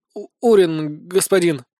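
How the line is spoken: Frightened boy stammering slightly. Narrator (Russian): слегка заикаясь, выдал мальчик, чье и без того неистово колотящееся сердце зашлось в слишком уж бешеном галопе

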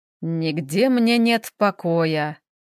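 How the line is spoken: Old sorcerer grumbling. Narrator (Russian): проворчал колдун

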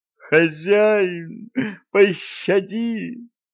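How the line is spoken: Devils howling. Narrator (Russian): взвыли черти

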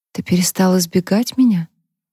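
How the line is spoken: Whisper. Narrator (Russian): прошептала она

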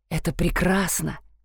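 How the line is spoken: Whispered. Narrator (Russian): прошептал он

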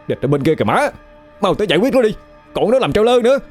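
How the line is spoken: Urgent shout. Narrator (Vietnamese): vội hét lên

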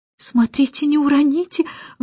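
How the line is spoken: Anxious. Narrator (Russian): взволнованно сказала миссис Брил

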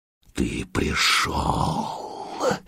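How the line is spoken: Hissing like a snake. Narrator (Russian): змеей шипел сварг

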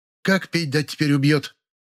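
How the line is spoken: Loud sobbing. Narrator (Russian): Лиля зарыдала громче

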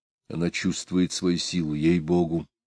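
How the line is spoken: Soft whisper. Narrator (Russian): тихо прошептал

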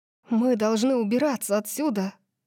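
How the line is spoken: Breathless. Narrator (Russian): Выдохнула Дарси

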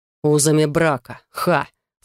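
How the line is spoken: Snorted. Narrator (Russian): фыркнул он

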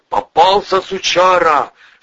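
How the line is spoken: Yelling at full strength. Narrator (Russian): Что есть мочи, заорал Волына

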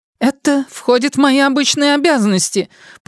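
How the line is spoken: Shrill squeal. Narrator (Russian): пронзительно взвизгнула Шерилл Босток

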